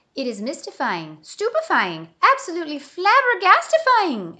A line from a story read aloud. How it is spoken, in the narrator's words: exclaimed Bismarck